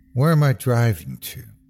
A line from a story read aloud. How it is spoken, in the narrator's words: asked aloud